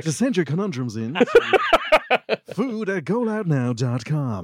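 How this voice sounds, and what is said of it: Radio DJ announcer voice. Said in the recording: “Do you want to hear my DJ voice? ... You just want to hear my DJ voice.”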